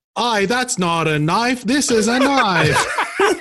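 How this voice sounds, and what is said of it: Bad put-on Australian accent. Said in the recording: “you do a pretty good Australian accent ... It's terrible ... Oh, that's so bad. ... That was terrible.”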